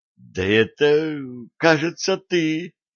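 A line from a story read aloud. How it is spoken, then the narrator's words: Exclaimed. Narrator (Russian): воскликнул штурман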